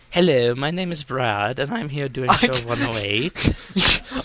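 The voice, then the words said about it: Fake accent sounding Swedish or Germanic. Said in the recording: “Why is every time you try and do an accent, it comes out like Swedish or Germanic?”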